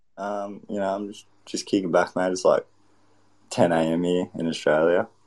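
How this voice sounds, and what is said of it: Put-on Australian accent. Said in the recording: “how do you do the Australian accent? I can't do it.”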